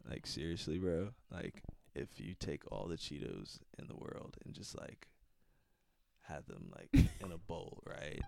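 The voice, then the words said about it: Stoned, spaced-out voice. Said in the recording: “This is my high voice.”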